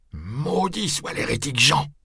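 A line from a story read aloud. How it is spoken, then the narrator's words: Grumbling. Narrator (French): grommeler Jérôme de Caffa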